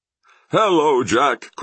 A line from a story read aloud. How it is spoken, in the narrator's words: cried West